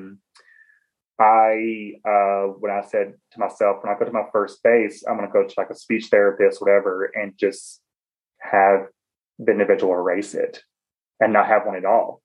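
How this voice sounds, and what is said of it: Southern American accent. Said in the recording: “I'm Southern... I loving my accent.”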